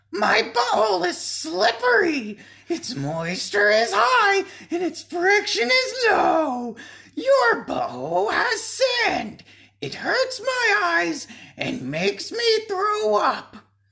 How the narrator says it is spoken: the Muppet cried out in a shrill voice

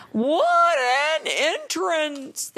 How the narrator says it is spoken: they cried

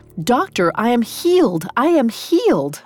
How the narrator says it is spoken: cried

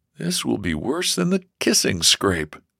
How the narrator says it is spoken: George groaned to himself

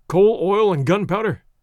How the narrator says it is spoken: cried Monsieur Thurin

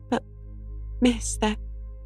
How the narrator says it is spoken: gasped Joe in desperation

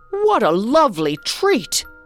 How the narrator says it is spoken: cried the emperor

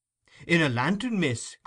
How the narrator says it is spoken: cried Brittles, applying one hand to the side of his mouth so that his voice might travel the better

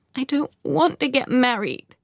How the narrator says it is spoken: I sobbed

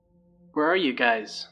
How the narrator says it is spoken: I said

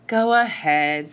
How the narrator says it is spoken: sighed Gabriella in mock exasperation

